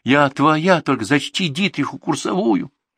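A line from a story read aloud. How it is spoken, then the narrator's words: Moaning. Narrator (Russian): простонала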